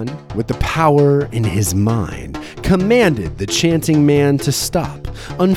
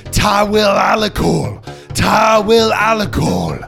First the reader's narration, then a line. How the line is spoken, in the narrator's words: wild-eyed, and screamed